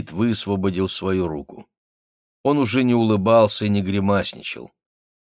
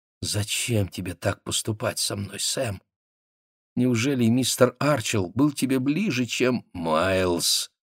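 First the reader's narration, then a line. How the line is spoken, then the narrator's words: Hoarse. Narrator (Russian): сказал Спейд хрипло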